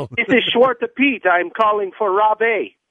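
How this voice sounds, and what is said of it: Put-on foreign accent. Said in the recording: “He has the accent.”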